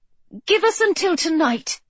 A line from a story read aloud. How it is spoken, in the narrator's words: Jane pleaded